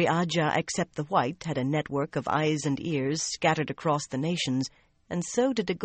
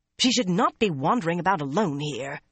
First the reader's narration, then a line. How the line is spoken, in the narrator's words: Shiriam said in an exasperated voice